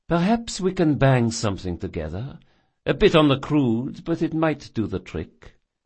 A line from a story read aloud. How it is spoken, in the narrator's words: sighed Jessalyn